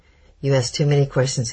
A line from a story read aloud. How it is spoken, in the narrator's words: laughed